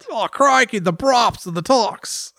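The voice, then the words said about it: Weak put-on Australian accent. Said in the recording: “If there's an accent that I don't do well ... Australians have kind of a cool like southern twang”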